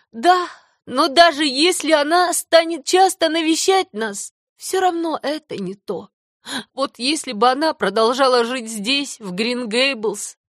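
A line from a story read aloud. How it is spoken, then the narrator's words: Sighing. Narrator (Russian): Вздохнула Марила, даже черпает удовольствие в своей грусти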